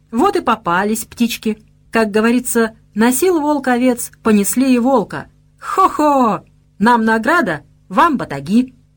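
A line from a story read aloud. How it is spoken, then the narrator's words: Cheerful. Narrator (Russian): весело произнес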